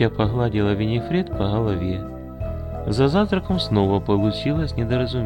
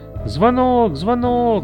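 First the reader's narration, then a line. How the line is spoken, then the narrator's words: Shouted. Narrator (Russian): закричала Эти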